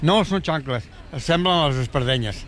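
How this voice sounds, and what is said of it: Put-on Catalan accent. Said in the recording (Spanish): “Y tiene acento catalán ... Me encanta que tenga el Papa acento catalán”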